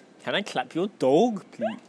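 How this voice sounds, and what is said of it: Attempted Scottish accent sounding Indian. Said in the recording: “in proper Scottish accent ... That's kind of Indian.”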